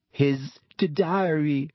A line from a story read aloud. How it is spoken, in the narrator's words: Ginny sobbed